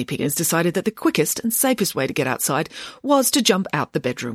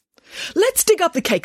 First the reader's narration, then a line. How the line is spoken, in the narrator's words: said Nanny Piggins excitedly